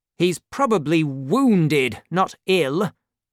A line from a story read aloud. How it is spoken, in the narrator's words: replied Monsieur de Tréville crossly